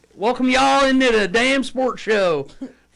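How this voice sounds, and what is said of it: Deep Southern US accent. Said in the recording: “you got a good Southern accent ... It's not bad. That's like deep South.”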